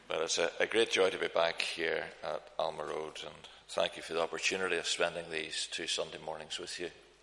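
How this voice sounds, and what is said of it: Non-local regional accent. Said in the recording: “It'll take you a wee while to get used to my accent, probably, because I was brought up a long way from here”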